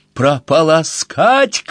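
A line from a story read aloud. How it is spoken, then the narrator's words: Shouted. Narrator (Russian): крикнула она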